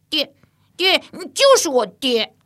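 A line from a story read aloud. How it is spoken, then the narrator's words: Excited repeated calling. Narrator (Chinese): 越发起兴头了，连着叫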